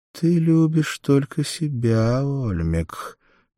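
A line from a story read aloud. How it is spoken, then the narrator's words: Singsong. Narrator (Russian): нараспев сказала она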